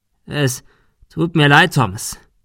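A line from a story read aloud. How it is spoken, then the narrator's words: Stammering. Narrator (German): stotterte er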